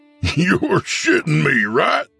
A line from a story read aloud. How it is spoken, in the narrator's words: said Bradley, laughing